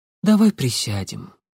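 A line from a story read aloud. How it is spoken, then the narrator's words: Tired woman's voice. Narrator (Russian): устало произнесла женщина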